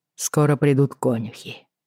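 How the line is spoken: Sigh. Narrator (Russian): Джейми вздохнул

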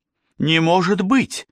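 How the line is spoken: Despairing exclamation. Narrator (Russian): с отчаянием воскликнула она

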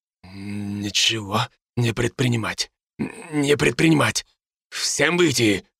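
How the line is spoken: Curt commanding whisper. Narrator (Russian): отрывистым шепотом приказал им Бруно

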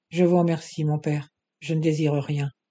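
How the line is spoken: Young girl, toneless voice. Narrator (French): fit la jeune fille d'une voix sans timbre

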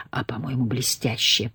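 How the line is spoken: Whispered. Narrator (Russian): прошептал Том

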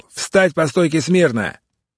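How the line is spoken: Guard yelling. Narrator (Russian): охранник орал

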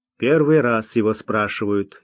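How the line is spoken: Displeased grumble. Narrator (Russian): недовольно проворчал тот

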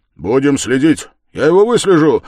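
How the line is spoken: Energetic shout. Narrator (Russian): энергически крикнул Разумихин

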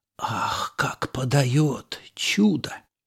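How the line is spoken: Whisper. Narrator (Russian): Простак шепнул

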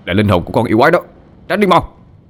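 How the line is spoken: Scream. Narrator (Vietnamese): Mà Tào hét lên

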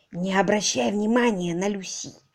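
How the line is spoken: Whisper. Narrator (Russian): шепнула мисс Софи

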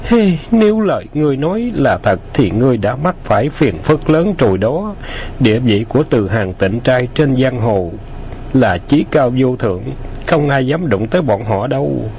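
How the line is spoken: Sighing. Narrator (Vietnamese): U Quốc thở dài nói

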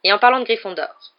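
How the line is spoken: Professor, curt. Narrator (French): reprit sèchement le professeur McGonagall

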